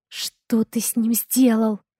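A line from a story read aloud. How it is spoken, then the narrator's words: Whisper. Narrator (Russian): прошептала Ева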